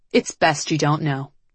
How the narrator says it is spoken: Liv said

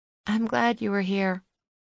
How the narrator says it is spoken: Leslie said quietly

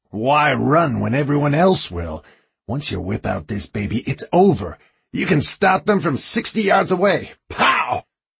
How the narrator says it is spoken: He chuckled

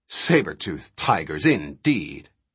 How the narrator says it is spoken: His derisive snort

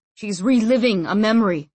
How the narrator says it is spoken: said, grunting slightly

